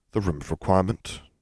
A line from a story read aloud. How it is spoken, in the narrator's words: Harry murmured